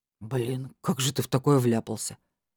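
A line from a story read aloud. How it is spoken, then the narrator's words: Sympathetic question. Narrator (Russian): Сочувственным голосом поинтересовался Илья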